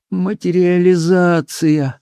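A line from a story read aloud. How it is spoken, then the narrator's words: Dejected repetition. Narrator (Russian): упавшим голосом повторила Симоне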